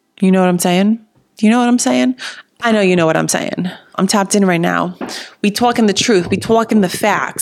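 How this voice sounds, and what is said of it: New Jersey accent. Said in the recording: “My Jersey accent comes out when I get into it.”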